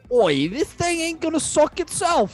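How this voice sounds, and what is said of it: Put-on accent. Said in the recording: “I contort my face, so I'm like seeing myself do the accent.”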